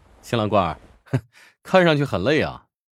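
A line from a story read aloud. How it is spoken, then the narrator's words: Laughing. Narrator (Chinese): 乔治笑道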